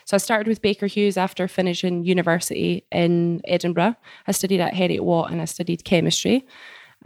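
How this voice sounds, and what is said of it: Scottish accent. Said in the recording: “The accent might be a little bit funny for y'all to hear... you could pause and you could rewind if you can't understand me... I love the accent... I'm originally from Scotland”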